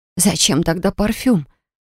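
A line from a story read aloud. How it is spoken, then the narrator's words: Breathless, entranced exhale. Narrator (Russian): выдохнула, но вдохнуть не смогла, завороженная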